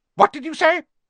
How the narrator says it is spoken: his aunt snapped through the door

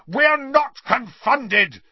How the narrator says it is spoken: Harry roared

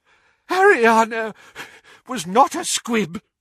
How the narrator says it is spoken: wheezed Doge

